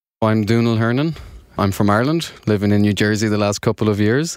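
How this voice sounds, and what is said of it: Irish brogue accent. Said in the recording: “that lovely brogue”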